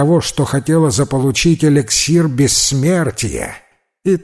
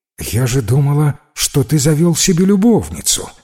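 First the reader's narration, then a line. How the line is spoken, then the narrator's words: Slightly bewildered. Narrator (Russian): сказала немного растерянно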